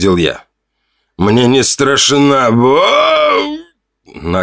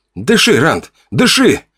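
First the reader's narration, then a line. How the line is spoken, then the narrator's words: Sharp shout. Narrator (Russian): прикрикнул я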